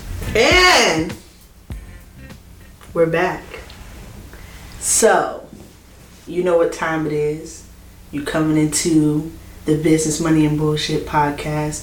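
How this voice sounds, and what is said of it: Sultry soft ASMR-like voice. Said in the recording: “my sexy, my sexy voice ... It's giving ASMR ... Like my sexy voice ... You like my sexy voice?”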